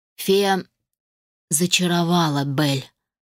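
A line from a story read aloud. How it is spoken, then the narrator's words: Growl. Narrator (Russian): рыкнул Адам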